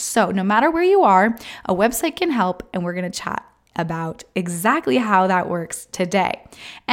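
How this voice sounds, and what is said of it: Sick, slightly rough sniffly voice. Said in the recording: “my voice is slightly better than it was last week, but it's still a little bit sketchy ... me coughing possibly, or just kind of that sniffly, runny, miserably awful cold type symptoms”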